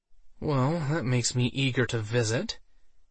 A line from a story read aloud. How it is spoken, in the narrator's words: she muttered under her breath